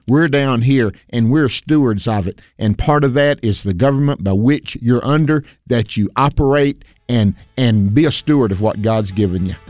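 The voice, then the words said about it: Raised, agitated pitch. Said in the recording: “you can tell my voice is going up”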